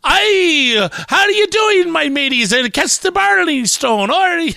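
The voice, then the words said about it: Poor put-on Irish accent. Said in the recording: “Irish stereotype ... I can do the Irish accent poorly”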